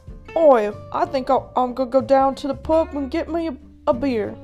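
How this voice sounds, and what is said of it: Put-on English accent. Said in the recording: “give me your English accent”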